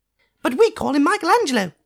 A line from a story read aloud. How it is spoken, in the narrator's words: piped Dot